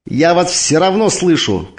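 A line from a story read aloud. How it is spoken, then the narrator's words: Shout. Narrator (Russian): крикнула Викса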